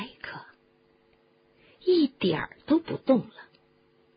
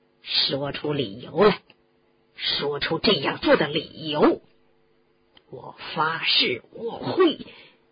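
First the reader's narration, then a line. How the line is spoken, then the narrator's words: Low voice. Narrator (Chinese): 斯内普低声地说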